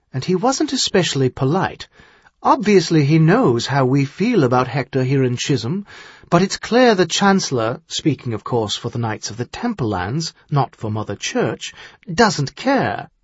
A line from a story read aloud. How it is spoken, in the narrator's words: she said more calmly